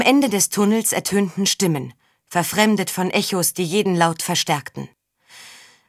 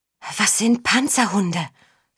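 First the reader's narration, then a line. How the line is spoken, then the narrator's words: Whispered. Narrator (German): flüsterte Tiesa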